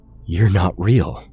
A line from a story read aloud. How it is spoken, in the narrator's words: Connor said, his voice shaking